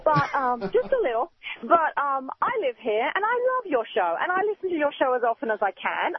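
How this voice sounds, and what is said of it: Foreign accent. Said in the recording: “as you can tell from the accent, I hail from a land that is just a little bit east of Charleston, South Carolina.”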